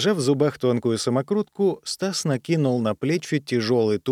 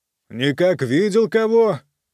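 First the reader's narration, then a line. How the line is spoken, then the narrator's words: Shouted, smiling. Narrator (Russian): крикнул ему, улыбаясь, Стас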